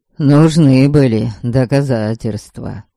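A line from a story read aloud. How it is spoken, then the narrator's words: Sighing. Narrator (Russian): вздохнул Эдуард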